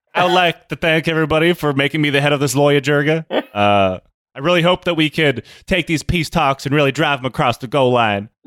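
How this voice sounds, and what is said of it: Weak Alabama accent, Tommy Tuberville impression. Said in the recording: “I can't do an Alabama accent. And also, I don't know if I've ever heard Tommy Tuberville speak.”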